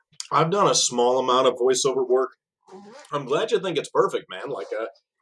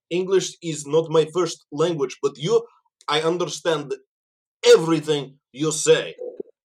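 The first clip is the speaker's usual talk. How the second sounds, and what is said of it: Put-on generic foreign accent. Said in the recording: “this is my impression of a generic foreigner ... that's what every foreign person sounds like, whether they're from Russia or Japan.”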